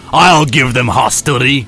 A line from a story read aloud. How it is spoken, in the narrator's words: growled Captain Picard